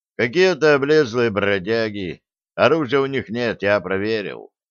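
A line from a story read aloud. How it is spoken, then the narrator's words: Indifferent tone. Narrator (Russian): безразличным тоном сообщил сержант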